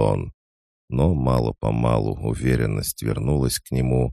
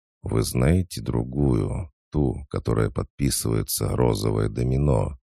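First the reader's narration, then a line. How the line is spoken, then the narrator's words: Quiet question. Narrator (Russian): Он тихонько спросил у госпожи де Морель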